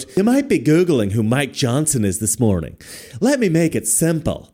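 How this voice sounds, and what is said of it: Adam Schiff impression. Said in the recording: “my Adam Schiff impression”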